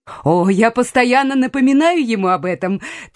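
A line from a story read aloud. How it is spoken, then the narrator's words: Laughing. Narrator (Russian): Трейси засмеялась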